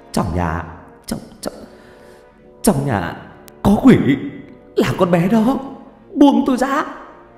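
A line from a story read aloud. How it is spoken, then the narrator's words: Trembling, breathless. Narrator (Vietnamese): Thanh niên run rẩy, nói như sắp hết hơi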